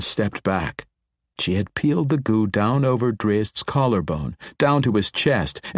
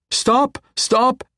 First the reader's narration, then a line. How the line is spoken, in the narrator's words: cried, leaping forward